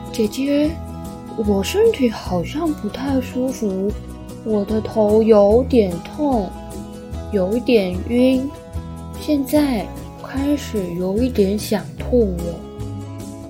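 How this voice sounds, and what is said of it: Quiet, soft voice. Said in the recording (Chinese): “小声的”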